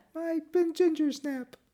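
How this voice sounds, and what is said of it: High-pitched child character voice. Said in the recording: “That's a great high voice.”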